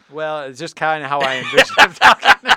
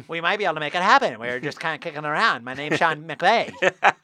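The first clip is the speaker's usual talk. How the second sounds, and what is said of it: Imitates another person's voice. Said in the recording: “Very good impression. That is how he talks.”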